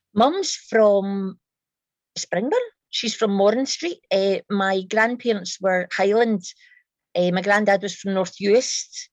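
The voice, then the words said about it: High-pitched, tinny Glaswegian accent. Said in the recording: “I'm a very high-pitched Glaswegian, a sort of tinny Glaswegian”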